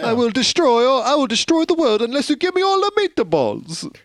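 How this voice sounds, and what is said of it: Put-on Italian accent. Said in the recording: “we gotta give him an Italian accent for the rest of the comic book.”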